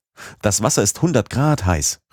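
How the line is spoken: Call. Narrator (German): rief ich

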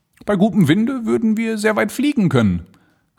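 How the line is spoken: Calling out. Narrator (German): rief er

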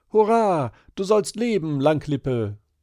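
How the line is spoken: Called out. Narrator (German): rief

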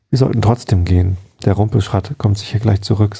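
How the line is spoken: Plain. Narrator (German): sagte Simonus

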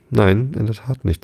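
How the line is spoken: Plain. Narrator (German): sagte Alice

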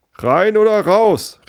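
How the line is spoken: Shout. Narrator (German): rief jemand

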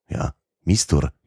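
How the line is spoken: Somewhat startled tone. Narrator (German): wiederholte einer der Isländer mit etwas erschrockenem Ton

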